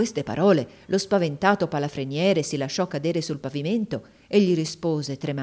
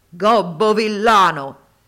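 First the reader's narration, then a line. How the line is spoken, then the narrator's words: Thundering buffalo shout. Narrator (Italian): il genio si cangiò all'istante in un possente bufalo e sotto cotesta forma gli gridò con voce tuonante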